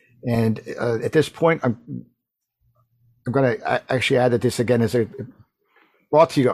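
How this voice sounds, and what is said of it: Hoarse, fading voice. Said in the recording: “I'm losing my voice. I don't know what's happening. It's one of those seasons for the people with allergies.”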